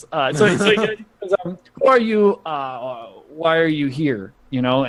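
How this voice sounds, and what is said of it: Weaselly voice with Russian accent. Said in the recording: “Just give him a really weaselly voice, but put a Russian accent on it. ... I don't do a Russian accent very much.”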